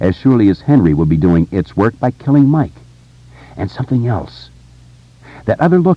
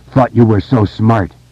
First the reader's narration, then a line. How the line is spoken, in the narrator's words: cried hoarsely